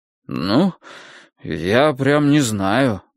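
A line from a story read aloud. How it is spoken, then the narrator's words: Muttered. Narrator (Russian): пробормотал Клопауций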